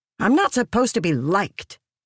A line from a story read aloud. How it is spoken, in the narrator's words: Lift snapped